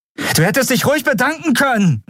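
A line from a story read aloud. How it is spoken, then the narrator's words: Shouted. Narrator (German): rief sie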